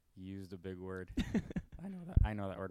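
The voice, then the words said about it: Voice cracks mid-sentence. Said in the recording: “Wow, my voice cracked. I'm still going through puberty.”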